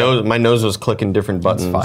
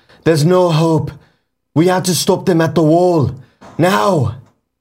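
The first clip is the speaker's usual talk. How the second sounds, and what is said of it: Jon Snow impression. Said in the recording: “I have a feeling that you are Jon Snow. I have a feeling that you've been Kit Harington this entire time ... You got to add Jon Snow into your ... impersonations”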